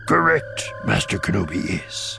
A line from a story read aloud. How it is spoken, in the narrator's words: Yoda said solemnly